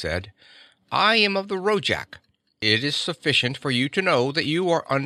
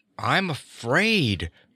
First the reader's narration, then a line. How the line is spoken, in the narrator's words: Martha Graham said shakily